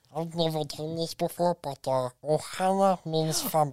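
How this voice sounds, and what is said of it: Impression of Stitch cartoon voice. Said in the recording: “my immaculate impression of Stitch ... It was actually a really good impression.”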